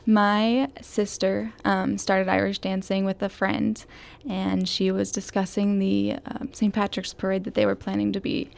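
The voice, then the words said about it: Typical American accent. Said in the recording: “you have more of a typical American accent here than Emer's Irish accent.”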